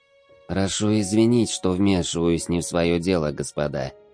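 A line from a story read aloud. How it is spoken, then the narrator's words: Softly said. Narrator (Russian): мягко сказала Итаменко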